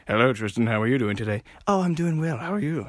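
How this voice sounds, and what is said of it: Weird put-on accents. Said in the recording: “Why are both the accents weird?”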